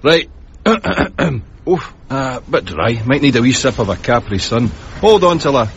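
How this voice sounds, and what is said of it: Usual voice. Nothing is said of it.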